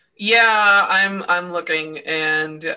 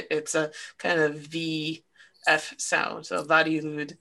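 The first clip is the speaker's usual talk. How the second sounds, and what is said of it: Brief Welsh-sounding accent. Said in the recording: “You so, sounded like you had a Welsh accent there.”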